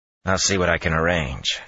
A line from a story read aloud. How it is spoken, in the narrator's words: he said dryly